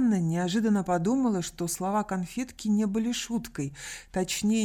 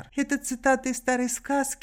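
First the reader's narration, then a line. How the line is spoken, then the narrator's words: Laughing. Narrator (Russian): рассмеялась Сандра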